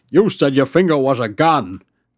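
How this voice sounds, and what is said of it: Poor James Earl Jones impression. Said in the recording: “Terrible James Earl Jones impression. ... That's bad. ... Yeah, no, I can't do it.”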